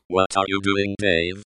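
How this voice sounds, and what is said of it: Impression of HAL 9000 computer voice. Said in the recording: “my impression from last week ... That, of course, is HAL 9000”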